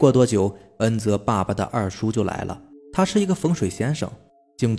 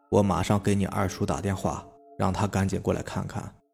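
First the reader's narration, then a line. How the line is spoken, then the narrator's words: Long sigh. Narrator (Chinese): 爷爷长长的叹了一口气，说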